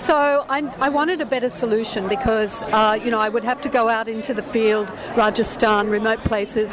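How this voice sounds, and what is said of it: Australian accent. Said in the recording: “I'm an Australian, as you can probably tell from my accent”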